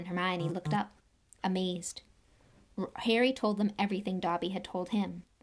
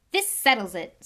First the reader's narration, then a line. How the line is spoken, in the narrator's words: said Ron, in a triumphant voice